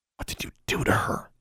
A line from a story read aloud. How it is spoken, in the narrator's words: she hissed